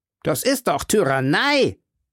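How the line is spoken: Shouting with foreign accent. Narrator (German): riefen gut französisch, obwohl mit einem fremden Akzent

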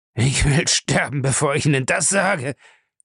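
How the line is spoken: Groaning. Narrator (German): stöhnte Lacey

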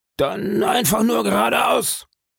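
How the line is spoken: Shouting. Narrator (German): schrie der Kapitän

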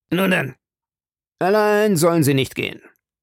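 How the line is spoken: Captain calling, deeply moved. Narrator (German): rief der Kapitän, der sich der Rührung nicht erwehren konnte

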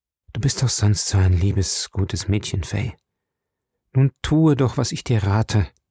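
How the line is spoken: Very gentle voice. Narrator (German): sagte mit seiner sanftesten Stimme

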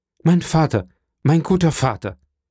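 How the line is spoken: Familiar voice calling out. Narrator (German): eine wohlbekannte Stimme rief hinter ihm

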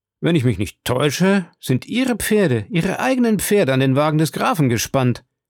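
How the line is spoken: Exclaiming. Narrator (German): rief Debray

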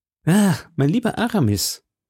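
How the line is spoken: Deep sigh. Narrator (German): sagte D'Artagnan tief seufzend

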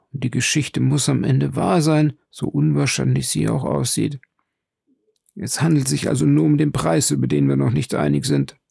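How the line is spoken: Jeweler murmuring. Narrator (German): murmelte der Juwelier

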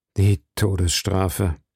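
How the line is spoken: Dull, hollow voices. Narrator (German): antworteten die beiden Musketiere mit dumpfer Stimme

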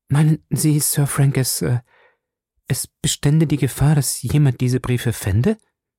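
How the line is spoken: Stammering. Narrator (German): stammelte sie

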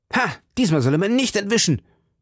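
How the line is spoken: Shout. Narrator (German): schrie D'Artagnan

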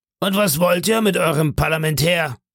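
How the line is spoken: Called out. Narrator (German): rief

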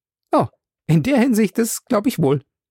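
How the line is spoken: Calling out, laughing brightly. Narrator (German): rief Passepartout und lachte noch heller

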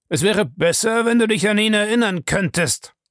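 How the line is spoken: Threatening and loud. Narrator (German): sagte er dann, und seine Stimme wurde drohend und laut

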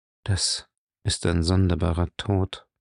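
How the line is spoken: Said quietly. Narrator (German): sagte er leise, als er fühlte, dass das Wasser sein Kinn berührte

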